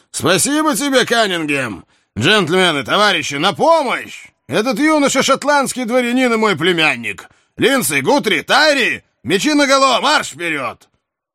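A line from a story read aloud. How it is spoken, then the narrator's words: Shouting. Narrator (Russian): он крикнул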